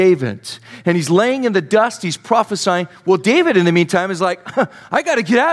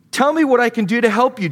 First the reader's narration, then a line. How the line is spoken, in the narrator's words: Jonathan exclaimed